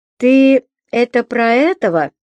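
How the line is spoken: Laughing. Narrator (Russian): смеялась

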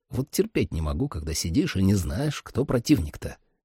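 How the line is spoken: Quiet. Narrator (Russian): тихо сказал Сэм

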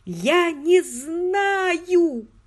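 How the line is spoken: Shouted outburst. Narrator (Russian): выкрикнула она

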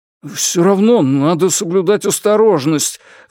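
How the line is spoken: Pleading. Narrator (Russian): взмолился Шань

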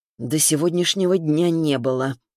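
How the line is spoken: Through gritted teeth. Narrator (Russian): сквозь зубы сообщил Орлов

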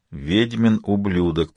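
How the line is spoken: Whispered. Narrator (Russian): прошептал Ваэлин

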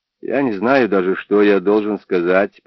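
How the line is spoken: Distrustful mumble. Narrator (Russian): пробормотал он, глядя с недоверием на нее

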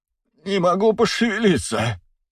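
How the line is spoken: Groaning. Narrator (Russian): простонал банкир

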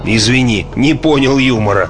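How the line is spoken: Snorting. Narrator (Russian): хмыкнул Уингерт

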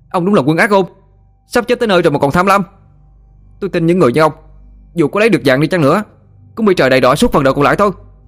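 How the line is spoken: Boy's furious shout. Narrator (Vietnamese): Mặt mày thằng bé bỗng đỏ phừng phừng, hét thẳng vào mặt Lão Tam

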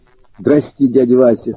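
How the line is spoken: Plain. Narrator (Russian): сказал Андрюшка

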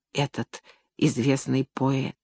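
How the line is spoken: Whisper. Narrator (Russian): будут шептать

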